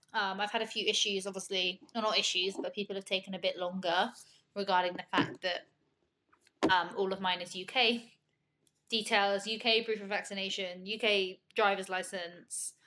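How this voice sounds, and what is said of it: British accent. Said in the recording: “I've had a few issues, I guess, with my accent”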